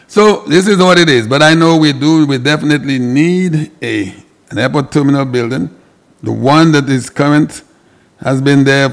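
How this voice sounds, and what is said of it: Groggy, slightly hoarse voice. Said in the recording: “I have a little itch in my throat, so my voice is a little groggy.”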